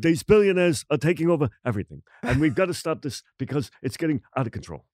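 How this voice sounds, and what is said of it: Imitates another person's voice. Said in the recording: “I can't do an accent ... Yeah, that's good.”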